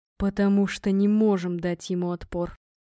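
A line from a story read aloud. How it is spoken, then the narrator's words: Flat hollow voice. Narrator (Russian): сказал глухим голосом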